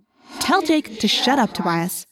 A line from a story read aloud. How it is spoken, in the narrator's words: I said angrily